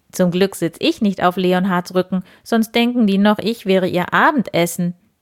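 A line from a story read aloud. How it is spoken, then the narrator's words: Giggling. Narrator (German): kicherte Wildi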